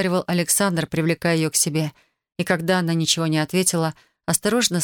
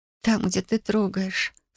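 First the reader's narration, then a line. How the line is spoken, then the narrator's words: Sobbing. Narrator (Russian): всхлипнула она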